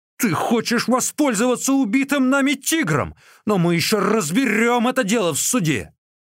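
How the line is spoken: Threatening group shouting. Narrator (Russian): угрожающе потрясая кулаками, кричали

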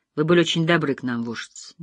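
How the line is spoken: Quiet. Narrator (Russian): негромко сказала Джиллиан

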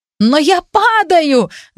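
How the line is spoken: Shout. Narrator (Russian): закричал кто-то

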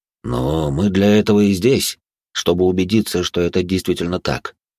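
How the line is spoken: Plain. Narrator (Russian): ответил он

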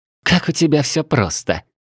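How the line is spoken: Smirking. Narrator (Russian): хмыкнула паладинша

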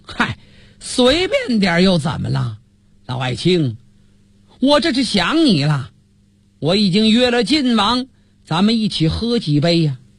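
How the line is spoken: Laughing loudly. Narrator (Chinese): 赵匡胤放声大笑

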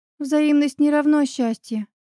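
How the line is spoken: Sighing. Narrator (Russian): вздохнув, отозвалась Оля

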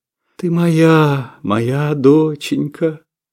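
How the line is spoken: Soothing cooing. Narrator (Russian): заворковала Шура успокоительно

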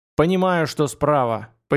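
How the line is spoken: Contemptuous snort. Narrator (Russian): презрительно хмыкнул Бишоп

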